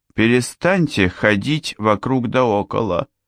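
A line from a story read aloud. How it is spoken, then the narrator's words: Icy reply. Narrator (Russian): ледяным тоном ответила Соня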